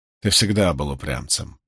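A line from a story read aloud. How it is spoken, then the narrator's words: Mumbling. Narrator (Russian): пробормотала она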